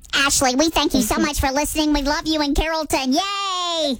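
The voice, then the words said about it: Squeaky high-pitched helium voice. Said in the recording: “helium voice ... personalized Dallas Helium shout out”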